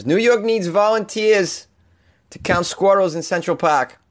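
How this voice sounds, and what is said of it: Thick put-on Boston accent. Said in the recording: “I'm delivering this in my thick Boston accent”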